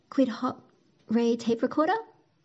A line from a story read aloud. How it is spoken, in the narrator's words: asked Felix, eagerly jumping up and down as if he were on a trampoline